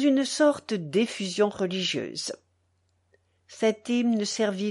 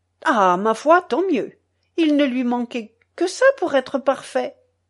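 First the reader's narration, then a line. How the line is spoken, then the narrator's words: Old woman's earnest exclamation. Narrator (French): s'écria la vieille Bressane avec une naïveté sérieuse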